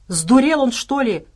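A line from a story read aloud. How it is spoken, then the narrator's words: Shouting bear cub. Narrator (Russian): крикнул медвежонок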